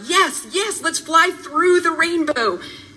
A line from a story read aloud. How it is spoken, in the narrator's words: I yelled out